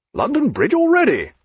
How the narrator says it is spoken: he cried

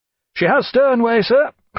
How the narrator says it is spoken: cried Watt

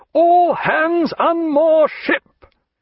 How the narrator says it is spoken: in a creditable imitation of Jack's quarter-deck voice, he roared

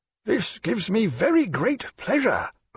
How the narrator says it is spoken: cried the grim, battle-scarred Grenville, breaking out into a one-eyed smile

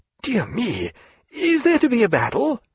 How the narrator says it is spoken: cried Stephen

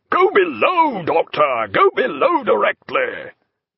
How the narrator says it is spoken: roared out

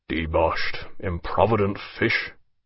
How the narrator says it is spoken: he muttered

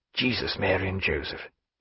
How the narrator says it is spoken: he said in a low, inward tone

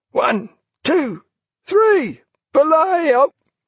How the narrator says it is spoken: The traditional howling chant came from the fore, main and mizzen gangs, in exact order and with immense spirit

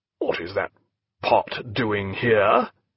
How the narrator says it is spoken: he asked in a harsh, suspicious voice

